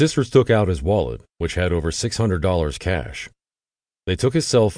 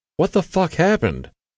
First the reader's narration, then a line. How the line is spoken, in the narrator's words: said, her voice trembling